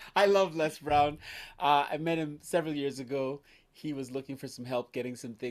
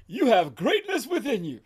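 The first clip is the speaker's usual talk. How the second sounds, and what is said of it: Imitates another person's voice. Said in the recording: “my Les Brown impression”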